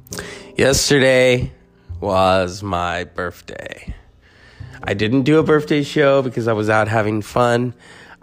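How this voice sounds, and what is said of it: Congested, strained voice. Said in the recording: “My voice is under construction right now. ... The weather, the allergies, the congestion.”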